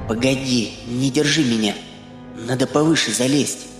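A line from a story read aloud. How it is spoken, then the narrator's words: Barely audible, while climbing. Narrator (Russian): еле слышно ответила Танька, карабкаясь по ржавой лестнице наверх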